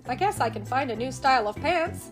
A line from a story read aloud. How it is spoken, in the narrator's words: SpongeBob said